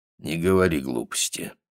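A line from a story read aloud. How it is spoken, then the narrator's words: Mumble. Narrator (Russian): пробормотал он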